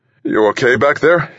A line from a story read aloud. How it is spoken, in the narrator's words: asked, surprised at how his voice shook